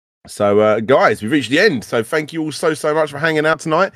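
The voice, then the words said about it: Strained, worn-out voice. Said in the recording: “I've literally lost my voice.”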